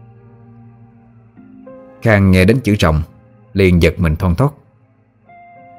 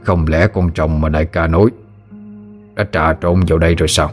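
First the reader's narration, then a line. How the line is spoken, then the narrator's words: Muttering. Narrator (Vietnamese): tên kia vừa lẩm bẩm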